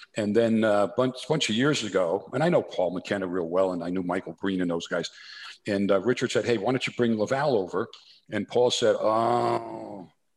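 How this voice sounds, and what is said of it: New Jersey accent. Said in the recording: “my New Jersey accent ... he's got that New Jersey, that Soprano thing going on”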